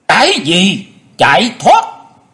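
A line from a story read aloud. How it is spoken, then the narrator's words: Furious, coughing. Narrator (Vietnamese): Chu Nguyên Chương rất là tức giận, tức giận dâng lên ở cổ họng không ngớt ho khan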